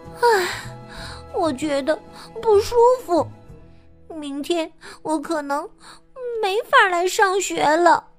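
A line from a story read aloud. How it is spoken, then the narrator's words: Sighing. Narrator (Chinese): 他叹息说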